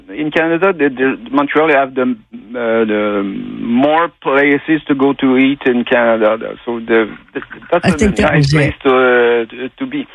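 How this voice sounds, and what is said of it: Noticeable accent. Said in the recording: “I love that accent. I thought that was nice.”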